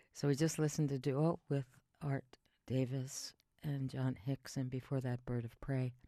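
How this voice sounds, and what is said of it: Put-on sexy low voice. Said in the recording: “This is my sexy voice.”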